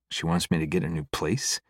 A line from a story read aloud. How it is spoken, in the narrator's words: I laugh quietly at the impossibility of such a suggestion